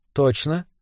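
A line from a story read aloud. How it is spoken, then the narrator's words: Calm, hiding agitation. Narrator (Russian): спокойно спросила Беллис, хотя внутри у нее все похолодело от волнения, от предвкушения, от непонятно чего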